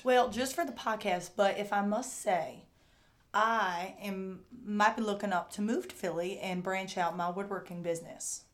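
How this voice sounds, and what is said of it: Thick Kentucky accent, hard to understand. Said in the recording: “You're from Kentucky ... your accent might be a barrier? You're sort of tough to understand.”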